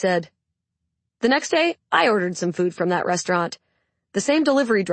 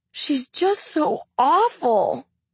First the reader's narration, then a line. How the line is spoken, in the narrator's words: the woman whined